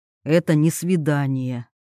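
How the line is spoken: Quiet and firm. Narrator (Russian): произносит тихо и твердо Андрей

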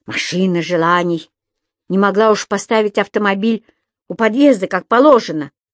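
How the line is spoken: Grumble. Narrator (Russian): пробурчал он

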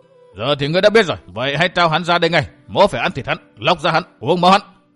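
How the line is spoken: Angry shout. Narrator (Vietnamese): Hắc Phán Quan tức giận quát

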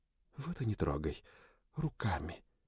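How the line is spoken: Whisper. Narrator (Russian): прошептала она

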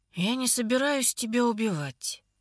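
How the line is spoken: Gruff muttering man. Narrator (Russian): бормочет мужчина по имени Мелис своим грубым голосом

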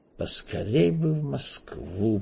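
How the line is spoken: Wistful mutter. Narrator (Russian): пробормотал Эраст Петрович, с тоской

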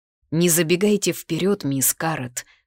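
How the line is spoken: Cold rebuke. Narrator (Russian): осадил холодно

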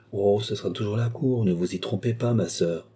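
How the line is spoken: Sad. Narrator (French): dit Philippe tristement

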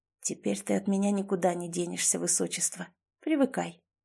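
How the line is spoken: Whispered. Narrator (Russian): я шепнул принцессе

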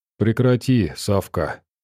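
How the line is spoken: Gentle. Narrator (Russian): мягко сказал партизан

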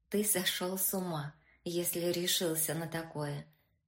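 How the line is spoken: Plain. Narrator (Russian): сказала наконец Женя

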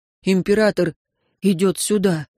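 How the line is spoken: Breathed out. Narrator (Russian): выдохнул Вагариус

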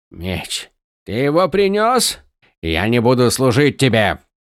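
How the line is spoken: Barking. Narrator (Russian): рявкнул Зет

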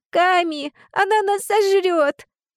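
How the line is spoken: Sobbing. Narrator (Russian): Эва рыдала

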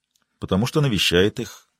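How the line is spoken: Quiet. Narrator (Russian): тихо произнесла Риццоли

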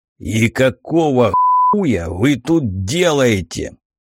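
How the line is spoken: Questioning growl. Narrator (Russian): вопросительно рыкнул

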